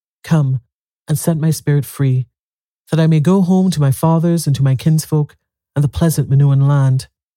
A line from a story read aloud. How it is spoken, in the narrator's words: called sadly